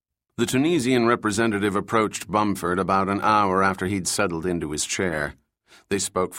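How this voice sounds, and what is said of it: Usual voice. Nothing is said of it.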